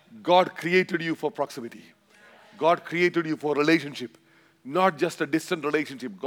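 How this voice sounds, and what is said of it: Indian-accented English. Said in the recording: “all the way from India. This brown man with a funny accent”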